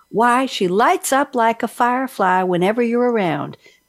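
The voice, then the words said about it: Put-on Southern US accent. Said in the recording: “I hope you don't mind the accent. I'm pretending to be from the South.”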